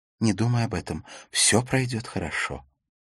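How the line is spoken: Whisper. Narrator (Russian): прошептала

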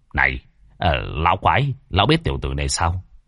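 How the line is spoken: Low voice. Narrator (Vietnamese): Lâm Đạo Minh đứng một bên, nhỏ giọng

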